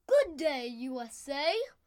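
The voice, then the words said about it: Put-on Australian accent. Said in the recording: “doing an Australian accent”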